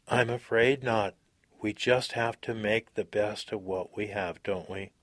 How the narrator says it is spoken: Drona said sadly

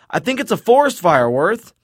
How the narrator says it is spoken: Recovering, Paul yells

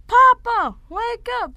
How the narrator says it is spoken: Jason yelled

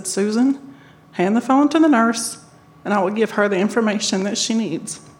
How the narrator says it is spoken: very calmly, I said

